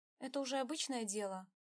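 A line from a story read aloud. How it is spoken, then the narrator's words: Tired smile. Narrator (Russian): устало улыбнулась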